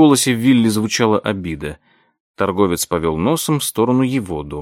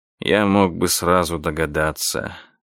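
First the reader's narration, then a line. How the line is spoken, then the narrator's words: Gruff mutter. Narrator (Russian): буркнул торговец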